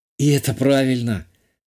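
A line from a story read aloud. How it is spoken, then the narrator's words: Relieved exhale. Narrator (Russian): облегченно выдохнула Натали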